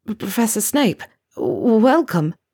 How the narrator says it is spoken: Neville stammered

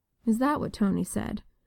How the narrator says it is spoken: Natasha murmured

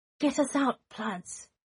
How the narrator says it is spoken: Remus pleaded

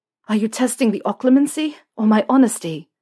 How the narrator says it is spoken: Harry asked, panting

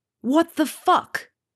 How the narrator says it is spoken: Harry shouts into Malfoy's face

